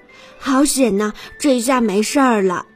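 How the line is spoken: Panting. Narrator (Chinese): 哥哥们喘着粗气说

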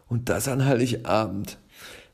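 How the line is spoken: Sigh. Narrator (German): seufzt Herr Schnurrhahn

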